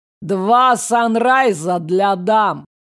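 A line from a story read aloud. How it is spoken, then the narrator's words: Loud order, bearded man. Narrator (Russian): Заказал громко бородач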